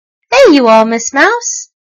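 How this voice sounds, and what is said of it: Hearty laughing elephant voice. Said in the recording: “laughed the stuffed elephant in his hearty voice.”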